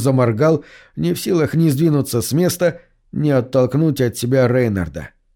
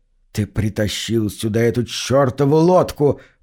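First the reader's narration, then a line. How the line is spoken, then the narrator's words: Hissing. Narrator (Russian): прошипел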